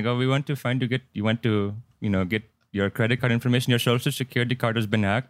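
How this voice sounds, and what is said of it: Put-on Indian accent. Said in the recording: “I just did an Indian accent”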